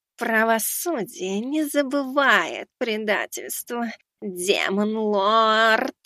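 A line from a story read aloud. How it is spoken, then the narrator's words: Hissing. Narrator (Russian): Она зашипела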